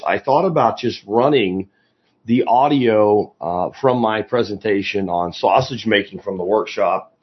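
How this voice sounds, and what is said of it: Slightly hoarse voice. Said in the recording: “my voice is a little bit hoarse.”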